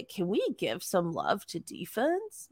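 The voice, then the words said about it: Mocking douchey voice. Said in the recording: “I read that in a douchey voice”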